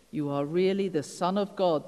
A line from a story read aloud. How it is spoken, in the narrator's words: they exclaimed